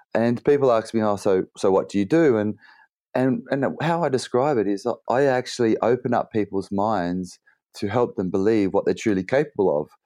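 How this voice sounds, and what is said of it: Slightly husky voice. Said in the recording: “my voice is a bit husky because I've been speaking all weekend on stage”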